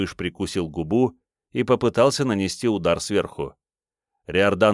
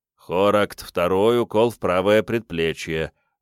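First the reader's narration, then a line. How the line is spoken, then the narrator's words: Gloomy, curt. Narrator (Russian): мрачно обронил танцор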